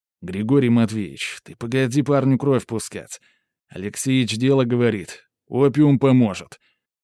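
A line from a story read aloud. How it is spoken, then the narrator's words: Host's deep booming bass. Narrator (Russian): прогудел басом наш гостеприимный хозяин, Ильин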